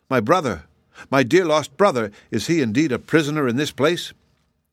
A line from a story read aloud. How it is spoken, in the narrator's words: Shaggy exclaimed